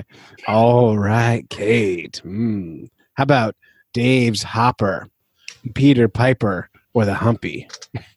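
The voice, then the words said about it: Put-on seductive 'dirty talk' voice. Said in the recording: “talk dirty to me ... put on my best voice”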